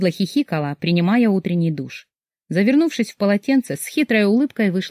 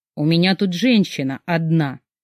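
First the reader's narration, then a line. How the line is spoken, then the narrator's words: Grumbling. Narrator (Russian): проворчал Дима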